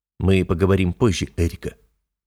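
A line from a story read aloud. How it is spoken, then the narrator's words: Low tone. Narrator (Russian): низким тоном произношу я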